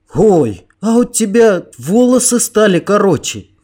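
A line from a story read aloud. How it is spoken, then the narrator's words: Sudden exclamation. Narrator (Russian): неожиданно воскликнул мальчишка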